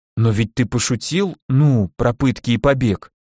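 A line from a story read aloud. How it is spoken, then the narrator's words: Timid. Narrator (Russian): робко уточнили в ответ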